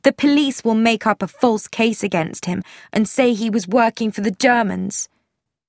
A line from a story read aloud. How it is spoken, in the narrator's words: Tuppence said sharply